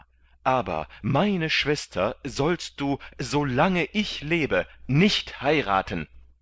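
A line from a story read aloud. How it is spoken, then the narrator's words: Shouting. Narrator (German): schrie der Freiherr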